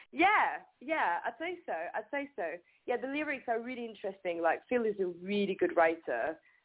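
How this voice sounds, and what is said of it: French accent. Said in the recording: “I'm French and my accent brings some, like, kind of an exotic thing to it”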